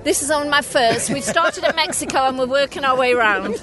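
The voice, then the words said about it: Welsh accent. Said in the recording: “I'm originally from Wales ... I just love the accent”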